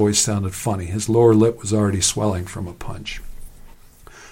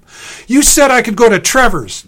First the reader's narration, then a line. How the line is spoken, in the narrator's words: Sam wailed